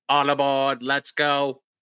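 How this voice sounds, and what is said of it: Imitates a cartoon train character. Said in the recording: “That was my best impression of Casey Jr.”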